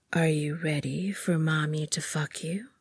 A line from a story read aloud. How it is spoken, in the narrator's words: she asked